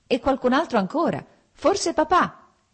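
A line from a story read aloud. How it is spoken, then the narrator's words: Shouting. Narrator (Italian): gridò Lievin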